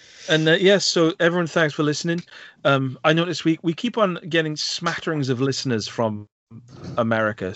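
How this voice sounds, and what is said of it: Welsh Valleys accent. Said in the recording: “my accent, because I am from deep within the Welsh Valleys”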